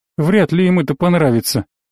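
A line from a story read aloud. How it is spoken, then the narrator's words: Calm. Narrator (Russian): спокойно ответил Абу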